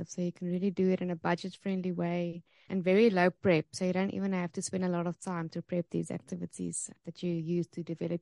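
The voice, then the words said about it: South African accent. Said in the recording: “I love your accent. So this is South African accent”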